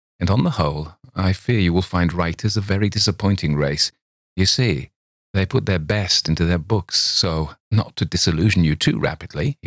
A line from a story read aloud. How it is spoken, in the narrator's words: he said coldly